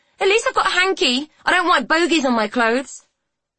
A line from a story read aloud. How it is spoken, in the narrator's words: She'd been horrified and angry and had yelled